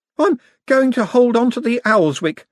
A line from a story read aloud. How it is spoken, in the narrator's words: said the artist nervously